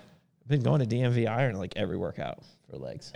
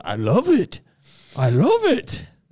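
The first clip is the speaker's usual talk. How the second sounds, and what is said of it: Imitates another person's voice. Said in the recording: “my Elon imitation”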